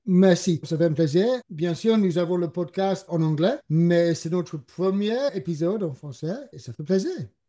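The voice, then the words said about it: English accent speaking French. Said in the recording (French): “Je dois m'excuser pour mon accent. Je suis anglais”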